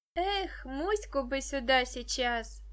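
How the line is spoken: Sighing. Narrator (Russian): вздохнула Даша

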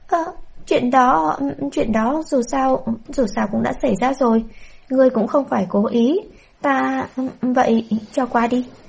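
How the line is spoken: Flustered stammer. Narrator (Vietnamese): Bạch Nhụy đờ người, gương mặt trái xoan đỏ bừng, lắp bắp nói

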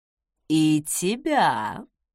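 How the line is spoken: Purring with a chuckle. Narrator (Russian): со смешком промурлыкал Закари

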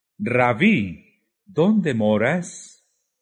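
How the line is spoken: Exclaimed together. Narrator (Spanish): Exclamaron

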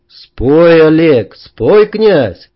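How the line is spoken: Rising crowd shouting. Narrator (Russian): шум нарастал, в том числе орали и совершенно мне незнакомые люди

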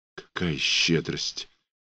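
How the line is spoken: Dazed whisper. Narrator (Russian): прошептала она, словно в забытьи

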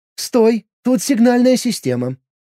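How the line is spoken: Squeak. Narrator (Russian): пискнула искорка

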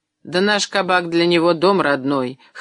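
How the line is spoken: Snorting son. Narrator (Russian): хмыкнул сын

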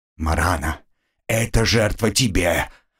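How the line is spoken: Hoarse wheeze. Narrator (Russian): прохрипел я

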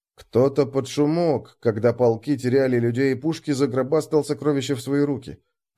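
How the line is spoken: Muttered. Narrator (Russian): пробормотал я

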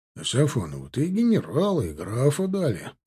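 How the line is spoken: Muttered. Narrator (Russian): пробурчал стоящий рядом Розенберг

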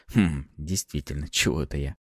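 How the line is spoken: Mumble. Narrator (Russian): Пробормотал

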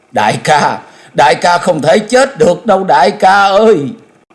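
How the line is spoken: Anguished female cry. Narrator (Vietnamese): Nàng cất tiếng thống thiết kêu lên

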